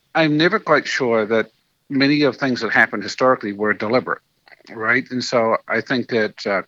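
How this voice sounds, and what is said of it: New Zealand accent. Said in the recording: “you might be able to tell from his accent that he's a native to New Zealand”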